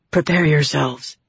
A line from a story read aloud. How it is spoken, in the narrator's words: Andral whispered